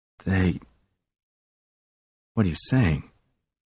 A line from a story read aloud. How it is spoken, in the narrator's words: Pearson's voice dropped to a whisper